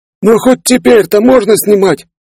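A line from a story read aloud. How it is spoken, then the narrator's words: Intrigued pleading. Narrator (Russian): Заинтригованный происходящим взмолился журналист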